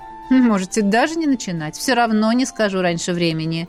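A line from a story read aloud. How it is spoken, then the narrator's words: Colonel's smirking snort. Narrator (Russian): хмыкнул полковник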